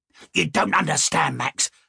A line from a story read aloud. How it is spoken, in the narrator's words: Lucky replied with a little whiny growl